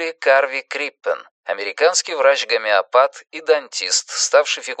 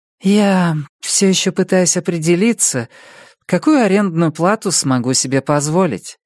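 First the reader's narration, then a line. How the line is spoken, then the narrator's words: Sigh. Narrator (Russian): вздохнула Робин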